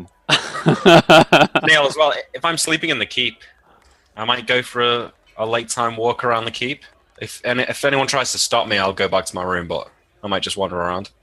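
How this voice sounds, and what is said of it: English accent. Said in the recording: “Your English accent”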